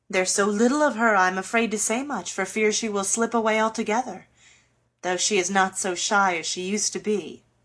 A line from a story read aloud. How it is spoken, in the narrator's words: began their father cheerfully